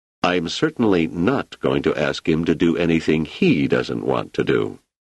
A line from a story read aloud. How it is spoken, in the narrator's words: Selden said firmly